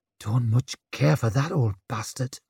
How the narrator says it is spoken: she muttered

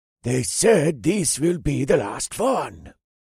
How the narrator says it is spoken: the blonde one hissed

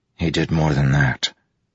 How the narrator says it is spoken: Kaladin growled softly

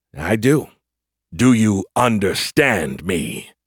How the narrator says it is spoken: the Verd definitely growled

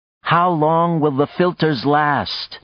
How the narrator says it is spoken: Nadia said to Sax, speaking loudly to be sure she was heard

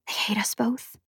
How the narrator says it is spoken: whispered

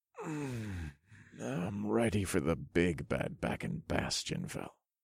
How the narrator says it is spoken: I murmured sleepily to the three women beside me

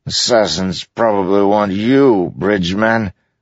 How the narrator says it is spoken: the king muttered

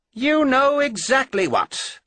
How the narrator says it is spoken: Austin half snapped

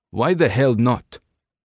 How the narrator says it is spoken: Sergey demanded, his tone sharpening

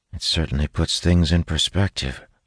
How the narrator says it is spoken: I mutter

